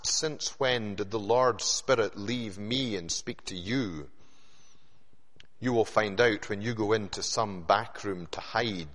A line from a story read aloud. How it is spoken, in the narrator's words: Micaiah replied